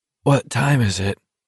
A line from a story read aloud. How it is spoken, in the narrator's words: Garrity asked thickly